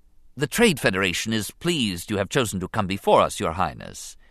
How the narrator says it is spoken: began smoothly

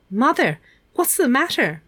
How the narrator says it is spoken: Meg cried

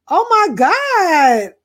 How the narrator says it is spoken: I exclaimed

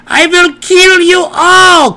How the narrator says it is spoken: cried the unseen wizard

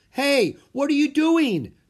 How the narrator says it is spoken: Drake yelled

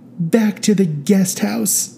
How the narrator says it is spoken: said Carolyn tearfully

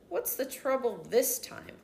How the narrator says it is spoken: Uncle Gard muttered, mostly to himself

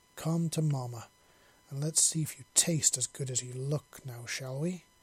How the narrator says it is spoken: She growled softly

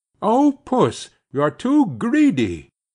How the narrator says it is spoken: Matty cried

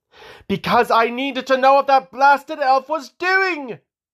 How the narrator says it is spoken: Loella roared

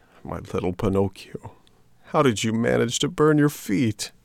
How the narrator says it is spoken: big tears ran down his cheeks, said, sobbing

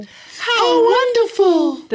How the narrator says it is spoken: the sisters cried

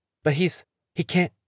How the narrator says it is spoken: Owen stammers

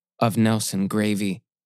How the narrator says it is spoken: it answered

